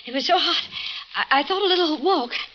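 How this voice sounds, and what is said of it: Breathless, out of breath speech. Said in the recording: “Why are you so out of breath? You've been running?”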